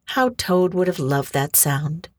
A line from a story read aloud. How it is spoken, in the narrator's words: Mole sighed